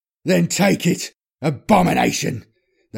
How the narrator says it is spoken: spat back, a trickle of blood running down his lips

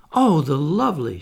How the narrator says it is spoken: she cried

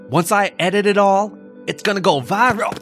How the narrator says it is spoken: the boyfriend shouted

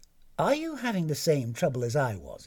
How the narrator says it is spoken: it said

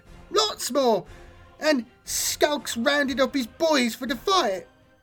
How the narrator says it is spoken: Lunk confirmed eagerly

